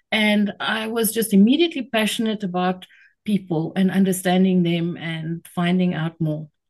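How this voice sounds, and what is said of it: South African accent. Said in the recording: “people may have picked it up from the accent, but where are you based? ... I'm in Cape Town, South Africa.”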